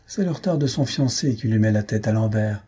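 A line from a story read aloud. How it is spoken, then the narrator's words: Old lady laughing. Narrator (French): dit la vieille demoiselle en riant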